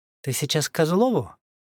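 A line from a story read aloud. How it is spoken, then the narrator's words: Agitated question. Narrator (Russian): взволнованно спросила Машка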